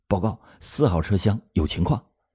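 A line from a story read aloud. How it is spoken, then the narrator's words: Hushed young woman's report. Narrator (Chinese): 一个年轻的女列车员压低着嗓音向局长张国兴报告说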